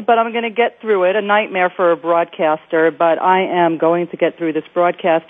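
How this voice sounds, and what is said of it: Slightly congested voice from cold. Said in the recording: “I have a little bit of a cold”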